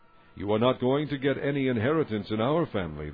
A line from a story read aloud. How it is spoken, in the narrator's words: they said